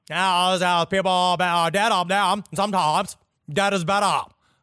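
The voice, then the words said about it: Impression of a horror-film character's voice. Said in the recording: “your Jenna Kennedy impression. That's very ... good ... That's my the guy from fucking Pet Cemetery”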